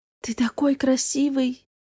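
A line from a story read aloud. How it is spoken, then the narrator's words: Admiring whisper. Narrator (Russian): шепнула, засмотревшись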